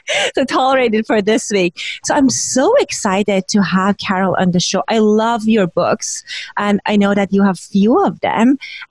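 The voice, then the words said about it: Husky, odd-sounding sick voice. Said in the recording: “my voice is kind of husky and kind of odd ... pneumonia or something, or really bad oh, flu”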